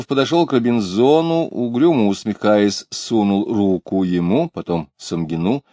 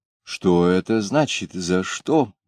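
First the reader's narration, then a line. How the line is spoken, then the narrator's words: Quiet indignant question. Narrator (Russian): тихо, но возмущенно спросил Робинзон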